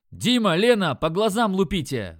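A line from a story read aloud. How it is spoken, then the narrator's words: Yelled. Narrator (Russian): заорал я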